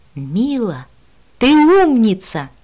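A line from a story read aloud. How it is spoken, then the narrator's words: Delighted exclamation. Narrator (Russian): воскликнула восторженно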